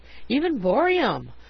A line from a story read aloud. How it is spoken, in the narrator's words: we exclaimed, delighted